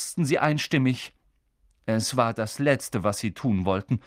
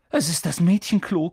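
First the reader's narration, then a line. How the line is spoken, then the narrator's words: Panting. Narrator (German): keuchte Harry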